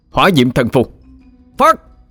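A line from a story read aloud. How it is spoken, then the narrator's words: Loud shout. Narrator (Vietnamese): Đại Hải miệng thét lớn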